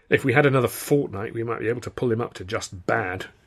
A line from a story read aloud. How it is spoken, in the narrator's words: he muttered